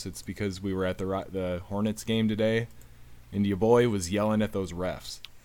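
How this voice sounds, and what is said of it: Slightly hoarse voice. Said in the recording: “tell my voice is a bit hoarse,”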